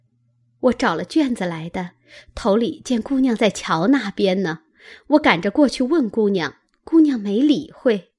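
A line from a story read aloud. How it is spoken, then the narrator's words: Ingratiating smile. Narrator (Chinese): 紫娟陪笑道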